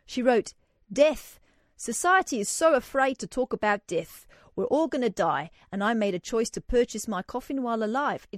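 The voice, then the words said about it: Attempted South African accent. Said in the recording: “I'm about to attempt the South African accent.”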